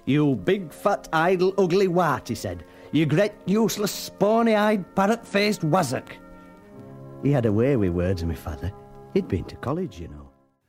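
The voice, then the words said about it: Northern English accent. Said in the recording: “that same kind of voiceover with that northern accent”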